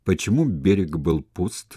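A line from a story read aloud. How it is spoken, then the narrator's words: Plain question. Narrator (Russian): спросил Сула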